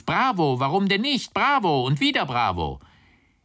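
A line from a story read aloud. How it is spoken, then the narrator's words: Distant call amid clapping. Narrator (German): Irgendwo klatschte jemand mit erhobenen Händen und rief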